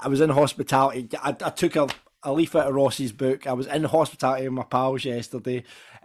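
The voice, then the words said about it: Hoarse, worn-out voice. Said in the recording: “You'll hear by my voice that yesterday has taken it away. I don't think the several drinks that I had before and after the game helped with that.”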